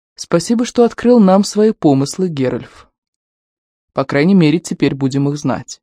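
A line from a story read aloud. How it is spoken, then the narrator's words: Calm young man. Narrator (Russian): Китиль, тогда еще молодой, спокойно молвив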